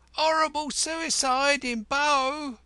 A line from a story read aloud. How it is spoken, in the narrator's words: the jubilant newsboys were shrieking